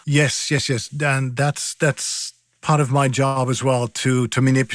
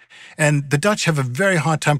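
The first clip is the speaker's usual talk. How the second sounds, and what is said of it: Dutch accent imitating Paul Verhoeven. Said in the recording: “a Dutch accent ... I can manipulate my voice so I sound a little bit more like ... the Dutch film director Paul Verhoeven ... So Paul Verhoeven talks like this”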